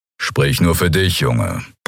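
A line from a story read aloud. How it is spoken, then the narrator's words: Grumbling. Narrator (German): brummte Kero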